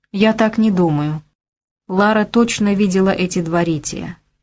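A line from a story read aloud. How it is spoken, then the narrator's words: Calm rebuttal. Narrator (Russian): спокойно опроверг Лайон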